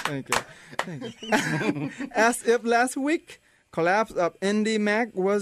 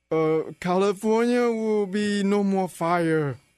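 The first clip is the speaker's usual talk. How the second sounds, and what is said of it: Imitates another person's voice. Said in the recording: “Do you do a Schwarzenegger impression? ... Very good.”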